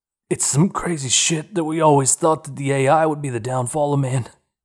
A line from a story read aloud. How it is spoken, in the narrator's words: chuckled